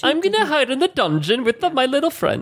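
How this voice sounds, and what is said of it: Attempted British accent, sounding South Asian. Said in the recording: “I can't do a British accent. ... That was really good, though. ... that was like an Indian/Pakistani.”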